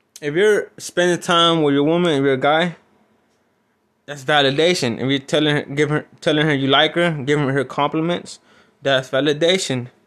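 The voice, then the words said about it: Strong non-native English accent. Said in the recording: “make fun of my accent ... me with a big accent.”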